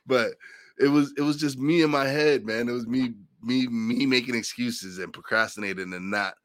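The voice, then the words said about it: Slightly congested, velvety voice. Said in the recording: “probably today I don't sound so good because I got a cold ... a little more velvety”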